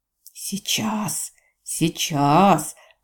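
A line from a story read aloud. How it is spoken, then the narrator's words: Hissed under breath. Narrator (Russian): прошипел себе под нос Джейвидж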